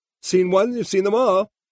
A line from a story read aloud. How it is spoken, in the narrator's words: Mary Lou said hysterically